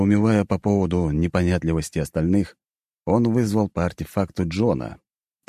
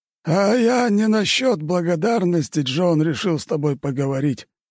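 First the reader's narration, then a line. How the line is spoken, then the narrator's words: Sighing. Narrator (Russian): вздохнул Флавий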